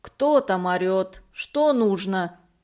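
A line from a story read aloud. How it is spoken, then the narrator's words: Calm. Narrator (Russian): спокойно сказал рыжеватый плотник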